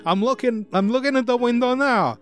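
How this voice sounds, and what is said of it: Weak imitated American accent. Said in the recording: “he does a, an, an astonishingly accurate American accent, as I'm sure you will say ... this accent, man ... it's a, worse later ... it is barely there”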